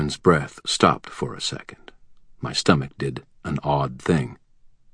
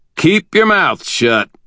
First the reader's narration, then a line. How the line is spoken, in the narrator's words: I said, loudly enough to be a little annoying